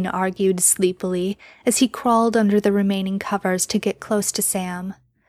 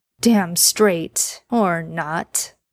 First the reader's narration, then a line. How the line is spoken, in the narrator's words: Dean said with a chuckle